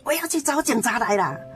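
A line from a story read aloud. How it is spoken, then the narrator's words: Loud shout from outside. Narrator (Chinese): 他就在外面大声喊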